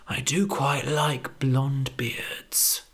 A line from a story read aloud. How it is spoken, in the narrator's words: murmured the wolf